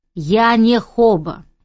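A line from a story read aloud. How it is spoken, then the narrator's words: Irritated objection. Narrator (Russian): еще раз довольно раздраженно возразила я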